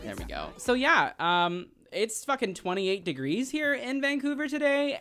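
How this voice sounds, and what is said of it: High-pitched drag persona voice. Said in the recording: “stay in my like ... voice, ... when I'm in drag I'm up here all the time ... I might end up coming back down to here”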